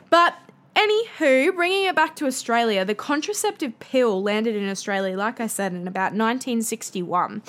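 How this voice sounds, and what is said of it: Broad Australian accent. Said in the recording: “my bogan Australian accent”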